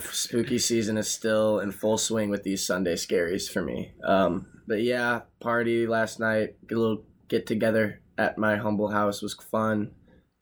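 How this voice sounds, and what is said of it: Strained, tired-sounding voice. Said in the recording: “I don't know if the listeners can tell, but my voice is strained today. It's been an exhausting weekend.”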